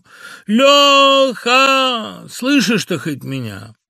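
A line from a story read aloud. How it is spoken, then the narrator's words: Shouting through cupped hands. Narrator (Russian): Сложил я ладони рупором, как закричу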